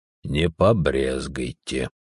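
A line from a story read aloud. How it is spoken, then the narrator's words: Gruff mumble. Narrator (Russian): буркнув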